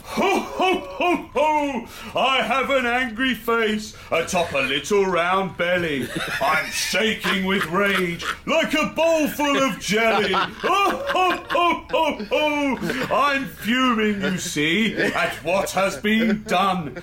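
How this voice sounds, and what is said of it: Jolly Santa Claus character voice. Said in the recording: “Part-time Santa impersonator ... superior Santa spoof”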